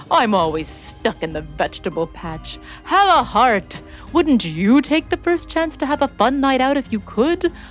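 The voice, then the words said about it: Charming, coaxing character voice. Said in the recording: “continued in a most winning voice.”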